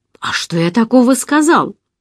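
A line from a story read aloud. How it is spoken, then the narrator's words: Mock surprise. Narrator (Russian): воскликнул Мино с притворным удивлением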